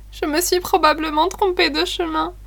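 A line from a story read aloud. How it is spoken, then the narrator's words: Sobbing exclamation. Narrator (French): s'écria Sophie en sanglotant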